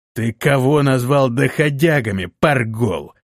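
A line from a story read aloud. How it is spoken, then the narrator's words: Hissing leader. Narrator (Russian): прошипел вожак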